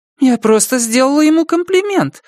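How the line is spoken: Offended. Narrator (Russian): обиженно произнесла мисс Хенкин

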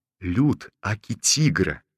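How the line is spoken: Cheeky, servile whisper. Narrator (Russian): Развязанно и приниженно зашептал он

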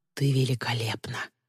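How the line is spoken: Quiet, soft. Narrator (Russian): тихо вымолвил Тристин

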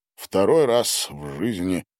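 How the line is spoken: Sigh. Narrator (Russian): вздохнул Гарин

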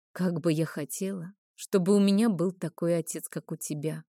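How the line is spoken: Dreamy whisper. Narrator (Russian): мечтательно прошептала я

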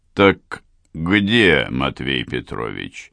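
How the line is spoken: Businesslike inquiry. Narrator (Russian): осведомился гость деловым тоном

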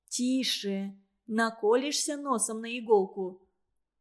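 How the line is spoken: Gently reasoning. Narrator (Russian): ласково урезонивала его Лариса

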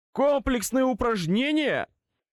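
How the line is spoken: Merciless, mocking repetition. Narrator (Russian): повторил Твилик безжалостным и глумливым голосом

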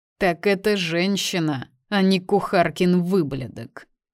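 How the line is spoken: Laughing. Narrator (Russian): Хохотнул он

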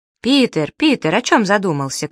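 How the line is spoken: Shouting group. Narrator (Russian): крикнут они

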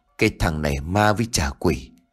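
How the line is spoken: Sighing. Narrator (Vietnamese): Đào thở dài

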